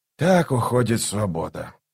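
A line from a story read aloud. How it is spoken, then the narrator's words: Muttered. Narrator (Russian): пробормотал он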